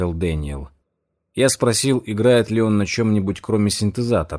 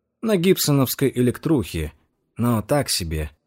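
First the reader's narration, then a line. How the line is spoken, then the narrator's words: Plain. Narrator (Russian): ответил он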